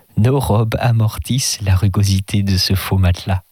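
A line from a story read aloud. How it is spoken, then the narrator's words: Plain. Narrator (French): dit-il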